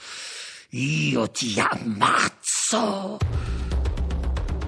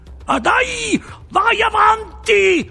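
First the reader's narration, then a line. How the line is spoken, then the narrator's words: Shouting. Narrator (Italian): urlò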